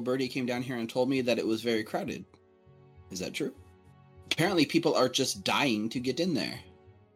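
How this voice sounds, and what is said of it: Deadpan, flat serious delivery. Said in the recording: “deadpan delivery that you have ... The deadpan, yes. ... I am usually very dead serious.”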